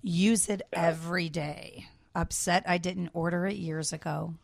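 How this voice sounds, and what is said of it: Sultry, sexy reading voice. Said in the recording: “So much for my sexy voice.”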